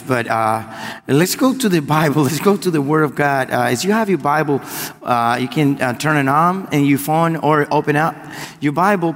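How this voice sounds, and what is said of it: Cuban Spanish accent in English. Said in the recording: “I'm Cuban, so as you hear a weird accent, it's because I'm Cuban. ... like Sofia Vergara, you know, speaking Spanish and English”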